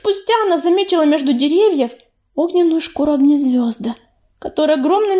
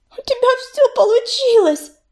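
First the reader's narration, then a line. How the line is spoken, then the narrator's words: Sobbing. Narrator (Russian): всхлипнула листочка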